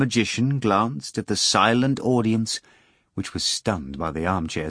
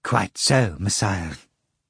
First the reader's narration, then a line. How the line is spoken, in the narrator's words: Fagot Kuroviov replied quietly